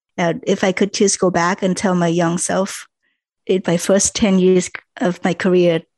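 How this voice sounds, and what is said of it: Non-native English accent. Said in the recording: “my accent and my English ... don't worry about your accent. Don't worry about your English”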